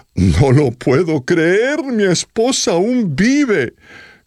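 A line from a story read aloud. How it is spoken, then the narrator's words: Exclaimed. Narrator (Spanish): el hombre exclamó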